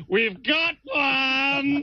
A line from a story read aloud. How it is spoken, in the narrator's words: George Hamilton shouting